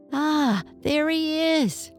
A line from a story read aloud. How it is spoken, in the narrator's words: cried Archie's father